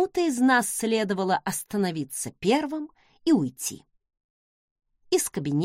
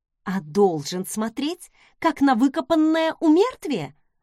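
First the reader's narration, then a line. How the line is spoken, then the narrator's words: Snapping retort. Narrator (Russian): огрызнулась я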